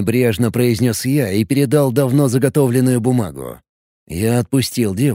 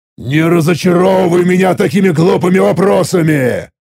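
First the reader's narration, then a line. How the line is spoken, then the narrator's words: Angry growl. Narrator (Russian): Зло прорычал я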